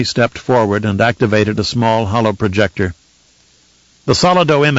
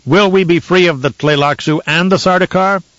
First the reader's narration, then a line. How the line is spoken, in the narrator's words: shouted